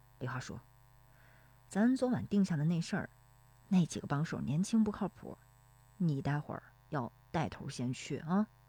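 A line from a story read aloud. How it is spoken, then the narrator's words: Low voice. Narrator (Chinese): 石有福……低声说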